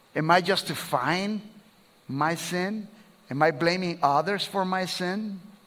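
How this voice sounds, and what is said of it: Speaks with a noticeable accent. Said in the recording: “this guy with an accent”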